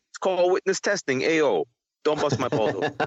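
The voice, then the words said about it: Italian mob accent. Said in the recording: “That's a very good mob, Italian mob accent you got there.”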